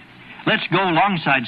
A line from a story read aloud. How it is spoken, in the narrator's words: said Walter Jenny